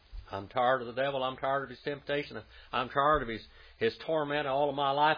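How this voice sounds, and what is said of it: Oklahoma accent, "tired" sounds like "tarred". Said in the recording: “Oklahoma accent, tarred of it? Tarred and feathered, you know, tarred.”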